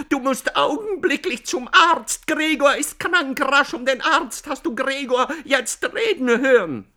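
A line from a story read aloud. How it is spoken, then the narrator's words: Shouting. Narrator (German): schrie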